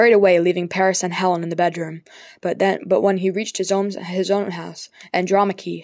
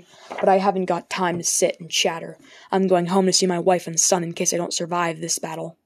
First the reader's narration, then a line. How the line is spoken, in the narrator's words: Hector said coldly